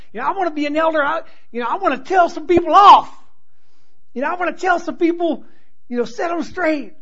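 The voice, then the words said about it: Put-on Southern American accent. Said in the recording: “I don't know why I come up with a southern accent when I do that. I'm just going to go ahead and go with it.”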